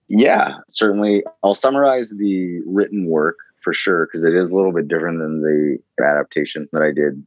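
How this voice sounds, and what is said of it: American East Coast accent. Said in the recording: “my East Coast accent”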